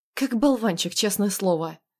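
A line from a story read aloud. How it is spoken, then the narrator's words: Irritated snort. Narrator (Russian): Раздраженно фыркнул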